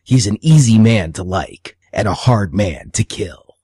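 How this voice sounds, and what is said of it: Movie trailer announcer voice impression. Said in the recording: “That was a pretty good movie phone impersonation.”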